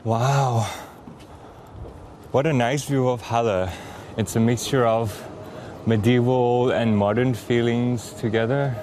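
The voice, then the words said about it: Out of breath, panting. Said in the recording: “I'm totally out of breath.”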